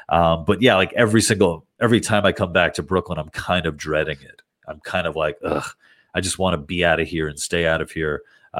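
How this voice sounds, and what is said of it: Congested, clogged nasal voice. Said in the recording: “I don't know if you guys can tell from my voice, but I am so clogged from just allergies”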